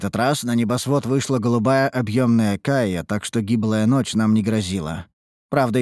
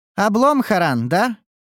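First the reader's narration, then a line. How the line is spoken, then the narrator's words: Snide remark. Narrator (Russian): ехидно подметила Неуру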